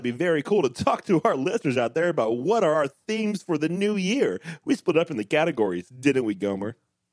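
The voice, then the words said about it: Cheesy announcer voice. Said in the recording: “you immediately go into cheesy announcer voice”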